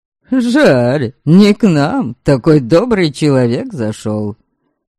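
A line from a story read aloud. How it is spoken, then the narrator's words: Laughing. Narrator (Russian): смеялся Ольга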